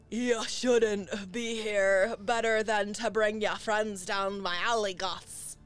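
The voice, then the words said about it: Very deep, dopey character voice. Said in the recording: “a very deep, stupid voice ... Deep and stupid.”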